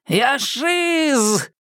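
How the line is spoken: Yelling monster. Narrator (Russian): орал ходячий ужас

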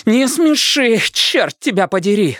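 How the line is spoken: Breathless exhale. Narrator (Russian): выдохнула Алиса

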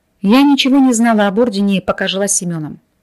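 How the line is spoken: Sighing. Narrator (Russian): вздохнула Кира

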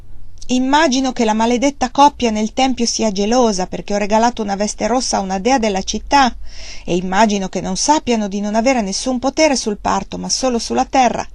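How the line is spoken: Angry exclamation. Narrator (Italian): Wang Lung esclamò con rabbia

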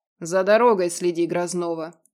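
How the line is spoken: Dropped offhandedly. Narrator (Russian): обронил Радмир

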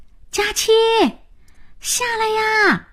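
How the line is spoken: Calling out. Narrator (Chinese): 老白叫

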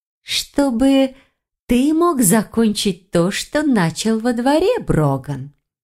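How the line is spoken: Drawling. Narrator (Russian): протянула Файона

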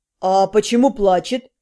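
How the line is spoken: Surprised questioning hum. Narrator (Russian): продолжил расспросы Вашарий, удивленно хмыкнув от моего заявления

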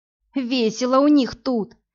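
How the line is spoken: Hoarse, strained. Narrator (Russian): хрипло выдавила из себя Амели

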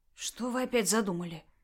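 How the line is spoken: Frightened question. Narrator (Russian): испуганно спросил Микола

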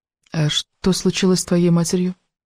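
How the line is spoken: Quiet question. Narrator (Russian): тихо спросила Элис

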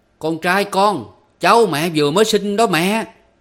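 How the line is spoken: Very loud. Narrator (Vietnamese): anh nói thật lớn tiếng

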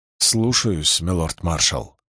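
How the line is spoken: Embarrassed mumble. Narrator (Russian): сконфуженно пробормотал юноша

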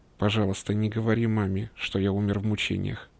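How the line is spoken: Muttered. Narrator (Russian): пробормотал он

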